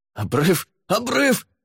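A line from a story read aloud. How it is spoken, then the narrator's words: Yelled in panic. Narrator (Russian): завопил Лаверн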